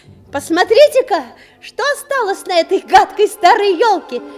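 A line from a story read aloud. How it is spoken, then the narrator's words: Shout. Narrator (Russian): крикнул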